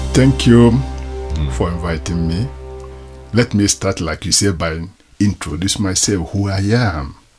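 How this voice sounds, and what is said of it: Nigerian-accented English. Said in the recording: “If you're not used to the Nigerian accent, then you may find some of the words a little hard to understand.”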